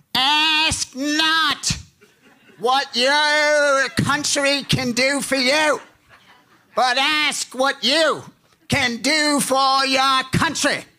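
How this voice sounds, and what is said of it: John F. Kennedy Massachusetts accent impression. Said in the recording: “to quote John F. Kennedy, with a little bit of a John F. Kennedy Massachusetts accent to make it appear a little bit more realistic”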